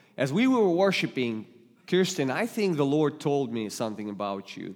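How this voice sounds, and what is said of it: Russian-accented English. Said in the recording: “you might detect a little accent. English is not my native language, so you might hear God today with Russian accent”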